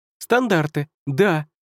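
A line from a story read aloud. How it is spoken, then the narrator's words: Joyful addition. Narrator (Russian): радостно добавил Коми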